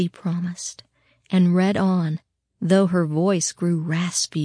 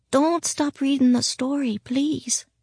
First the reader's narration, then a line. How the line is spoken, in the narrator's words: she croaked out